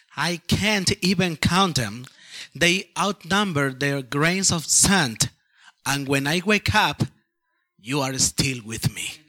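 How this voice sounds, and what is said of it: Peruvian-accented English. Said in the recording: “his Peruvian accent”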